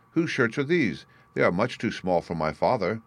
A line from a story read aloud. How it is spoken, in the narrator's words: exclaimed